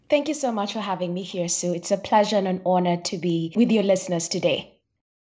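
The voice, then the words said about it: Noticeable pleasant accent. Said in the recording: “I already love your accent? You probably don't think you have one, but I'm going to say you do. And it's beautiful.”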